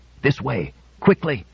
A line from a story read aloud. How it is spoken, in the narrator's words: The old man said hoarsely